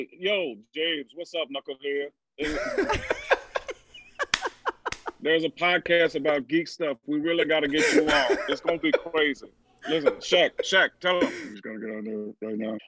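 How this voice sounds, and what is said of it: Charles Barkley impression. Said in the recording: “I will do it with Charles Barkley.”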